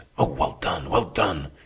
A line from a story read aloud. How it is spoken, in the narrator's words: repeating over and over in a whisper